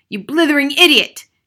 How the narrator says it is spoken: shouted the Trunchbull

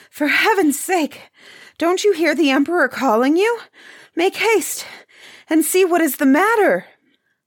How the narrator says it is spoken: panting for breath, said to the head butler

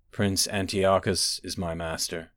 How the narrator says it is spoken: he said in a dead voice

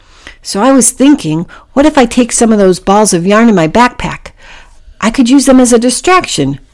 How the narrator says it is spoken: Packy said excitedly

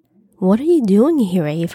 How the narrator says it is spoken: I asked

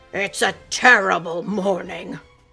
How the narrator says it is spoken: Reuben roared

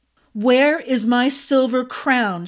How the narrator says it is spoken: asked, raising her voice to be heard

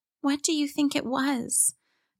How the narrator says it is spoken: Kalia asked Kai quietly, since all the grown-ups seemed tense and worried and were focused on other things

